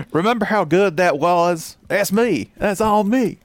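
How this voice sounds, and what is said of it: Put-on East Alabama accent. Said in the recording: “that extremely East Alabama accent”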